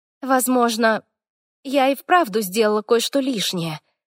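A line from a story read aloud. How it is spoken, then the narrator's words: Forced out reluctantly. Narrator (Russian): выдавила я, избегая смотреть в глаза Хорвику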